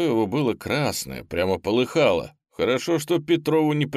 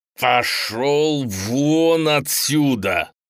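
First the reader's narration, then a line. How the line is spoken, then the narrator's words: Growled. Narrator (Russian): прорычал на Петрова Юрий Эдуардович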